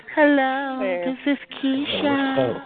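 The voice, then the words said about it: Sultry phone sex operator voice. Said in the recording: “That's that phone sex operating shit ... she sound mad good, though.”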